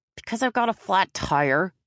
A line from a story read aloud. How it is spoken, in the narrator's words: he sneered, making it sound like it was Joe's fault